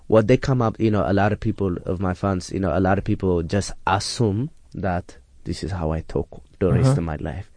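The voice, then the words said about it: Put-on foreign accent. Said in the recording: “a lot of my fans, they think this is my real accent. They don't think I am from America”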